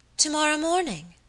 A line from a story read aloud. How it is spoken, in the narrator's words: exclaimed my lady